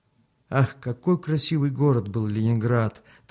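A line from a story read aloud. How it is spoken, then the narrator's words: Wistful sigh. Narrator (Russian): тоскливо вздохнул Михаил Порфирьевич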